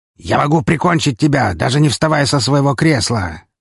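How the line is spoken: Barked male shout. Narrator (Russian): рявкнул он

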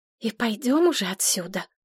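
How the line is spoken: Fearful whisper. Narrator (Russian): опасливо прошептала Мария, услышав шаги в коридоре

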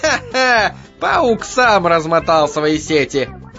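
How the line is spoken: Gleeful cackling. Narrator (Russian): Захохотала муха

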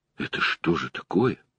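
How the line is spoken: Quiet. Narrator (Russian): сказал тихо

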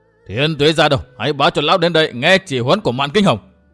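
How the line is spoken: Bitter hissing voice. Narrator (Vietnamese): Y đay nghiến nói như rít

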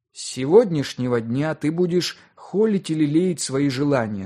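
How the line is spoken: Plain. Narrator (Russian): сказал он

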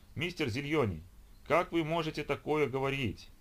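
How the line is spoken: Exclamation. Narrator (Russian): воскликнула Оливия

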